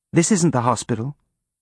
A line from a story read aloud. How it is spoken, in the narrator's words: May said